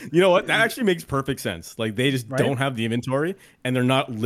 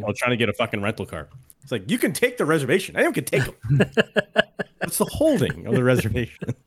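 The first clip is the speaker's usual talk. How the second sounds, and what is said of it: Imitates another person's voice. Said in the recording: “That was a really good impression.”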